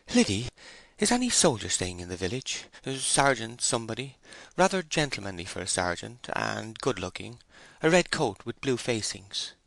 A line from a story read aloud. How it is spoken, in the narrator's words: Bathsheba ... panting, said